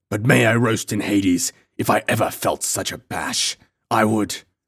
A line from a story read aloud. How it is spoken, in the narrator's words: snarled the giant